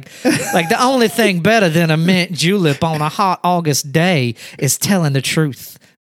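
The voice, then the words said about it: Put-on Southern belle accent. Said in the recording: “in like a Southern accent, you know, like a Blanche DuBois kind of Streetcar Named Desire thing”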